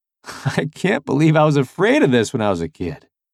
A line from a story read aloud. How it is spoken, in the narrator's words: I laughed